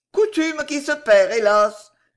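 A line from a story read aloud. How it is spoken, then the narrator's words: Sighing interruption. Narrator (French): interrompit la marquise en soupirant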